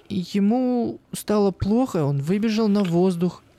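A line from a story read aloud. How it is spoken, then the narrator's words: Bewildered. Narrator (Russian): растерянно ответила Юлька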